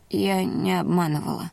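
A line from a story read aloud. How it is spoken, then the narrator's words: Hoarse rasp. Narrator (Russian): прохрипела я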